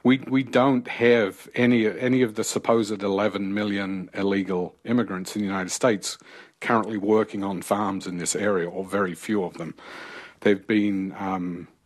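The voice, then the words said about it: Non-American foreign accent. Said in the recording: “I can tell by your accent, sir, that you are not originally from the States.”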